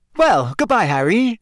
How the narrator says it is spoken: Rita Skeeter called merrily to him

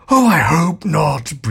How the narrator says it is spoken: breathed Ford

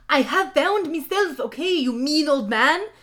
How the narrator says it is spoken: Hagrid yelled

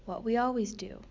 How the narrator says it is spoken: said Slobby Dog

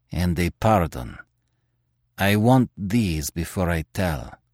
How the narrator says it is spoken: he said sullenly

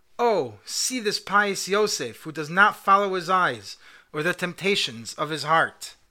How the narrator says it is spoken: the daughters of the aristocrats exclaimed to one another in sheer amazement

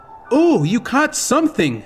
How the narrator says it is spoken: Malin squealed with delight

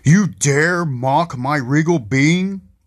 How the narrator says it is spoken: the Colossus becomes infuriated and roars

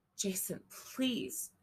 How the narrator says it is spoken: she begged

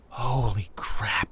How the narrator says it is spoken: Aubrey breathed out

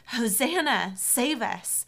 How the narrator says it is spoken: cried out

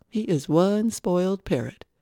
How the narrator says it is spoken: Louis laughed

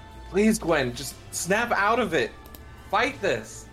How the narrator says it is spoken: kind of just yelling

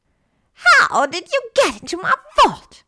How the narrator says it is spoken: Bellatrix shrieked again

